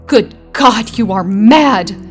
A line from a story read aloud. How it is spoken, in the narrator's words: he cried aghast